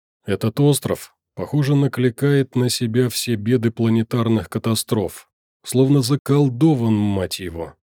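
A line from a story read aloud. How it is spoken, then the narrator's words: Cursing through clenched teeth. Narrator (Russian): выругался он сквозь зубы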